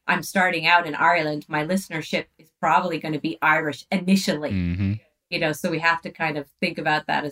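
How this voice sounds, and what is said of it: Mixed Irish and American accent. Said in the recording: “It is fantastic to hear an Irish/American accent, by the way. It's very... unique... 1 minute you're Irish, the next you're American.”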